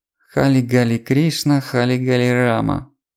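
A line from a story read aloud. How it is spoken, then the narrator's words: Purring a favorite song. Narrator (Russian): промурлыкала Лилит любимую песенку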